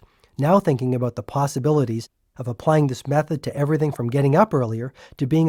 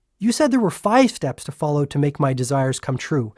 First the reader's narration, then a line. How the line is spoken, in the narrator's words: I said impatiently